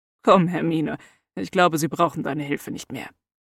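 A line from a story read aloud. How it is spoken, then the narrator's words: Soft. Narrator (German): sagte Severus dann leise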